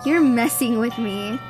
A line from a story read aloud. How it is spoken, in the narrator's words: Kaylee laughed